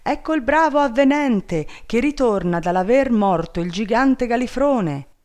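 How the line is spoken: Crowd shouting. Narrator (Italian): tutta la gente gli andava dietro gridando

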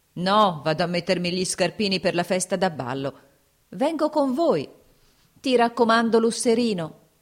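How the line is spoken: Shouting. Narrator (Italian): gridò la cantiniera

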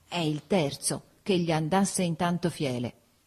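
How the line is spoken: Low grumble. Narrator (Italian): brontolò sottovoce

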